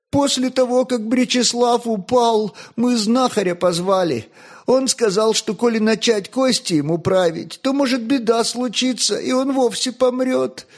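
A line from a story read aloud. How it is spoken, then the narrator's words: Sobbing speech. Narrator (Russian): всхлипывая рекла Огнещанка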